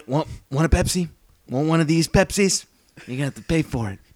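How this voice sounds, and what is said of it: Robert De Niro impression. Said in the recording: “my Robert De Niro impersonation”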